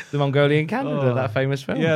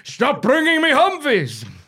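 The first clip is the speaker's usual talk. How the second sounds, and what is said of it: Shouted Genghis Khan impression. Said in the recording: “my Genghis Khan impression.”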